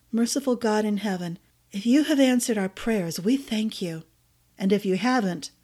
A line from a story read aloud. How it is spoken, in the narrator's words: Theo said, his voice turning hard